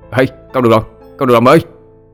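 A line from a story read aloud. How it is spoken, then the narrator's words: Sudden delighted shout. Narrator (Vietnamese): Hữu chợt la lên thích chí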